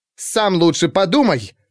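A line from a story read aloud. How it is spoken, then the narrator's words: Snapping retort. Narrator (Russian): огрызнулась Хирилла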